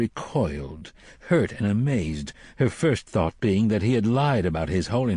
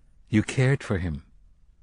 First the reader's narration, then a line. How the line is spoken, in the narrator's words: he said flatly